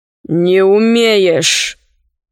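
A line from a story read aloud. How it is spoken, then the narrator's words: Gloomy. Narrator (Russian): мрачно сказал Синдбад-мореход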